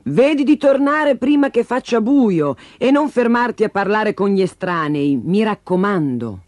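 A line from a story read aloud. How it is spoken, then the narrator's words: Mother shouting. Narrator (Italian): La mamma le gridò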